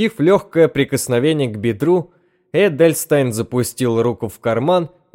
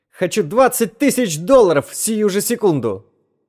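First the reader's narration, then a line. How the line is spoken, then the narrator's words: Sudden shrill shout. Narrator (Russian): Неожиданно для себя Эдельстайн визгливо крикнул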